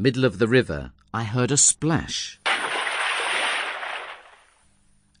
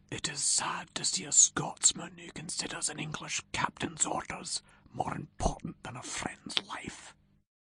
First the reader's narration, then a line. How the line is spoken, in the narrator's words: Rob Roy whispered to Ewan